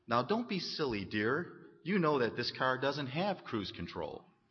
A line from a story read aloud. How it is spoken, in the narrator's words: his wife said sweetly